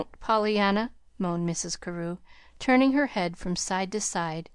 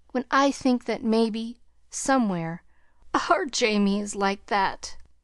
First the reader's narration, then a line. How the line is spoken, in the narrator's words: Only a choking sob finished the sentence